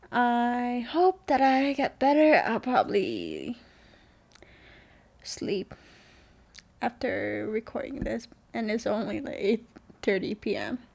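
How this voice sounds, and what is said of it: Tired, sick-sounding voice. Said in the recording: “I'm so tired. I think you can probably tell from my voice.”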